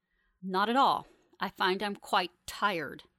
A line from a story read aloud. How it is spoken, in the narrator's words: Fanny snarls without any hint of tiredness in her voice